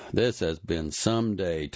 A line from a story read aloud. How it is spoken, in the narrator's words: Tiny muttered into Dale's hair